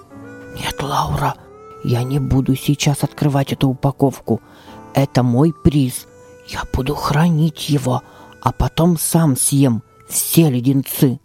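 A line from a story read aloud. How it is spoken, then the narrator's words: Whispered addition. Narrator (Russian): добавил он шепотом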